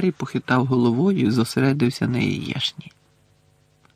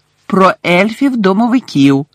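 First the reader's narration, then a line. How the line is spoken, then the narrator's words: Loud. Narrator (Ukrainian): голосно сказала Герміона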